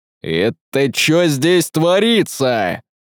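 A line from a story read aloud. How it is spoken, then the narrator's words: Growl. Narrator (Russian): прорычал он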